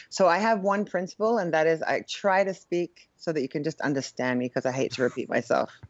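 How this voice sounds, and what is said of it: Non-classic Australian, Eastern European-sounding accent. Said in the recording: “your accent is not like classically Australian. It's to us, it sounds Eastern European too”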